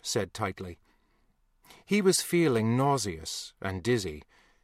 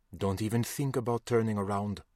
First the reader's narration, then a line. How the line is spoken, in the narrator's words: Still smiling, he leaned into Josh and murmured